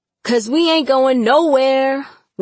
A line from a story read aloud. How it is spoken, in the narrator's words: one of the guys barked